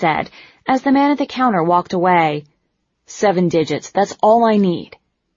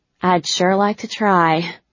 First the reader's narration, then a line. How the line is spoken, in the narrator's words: said with a sigh